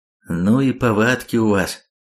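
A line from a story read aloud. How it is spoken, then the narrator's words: Grumbling mutter. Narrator (Russian): пробурчал Хром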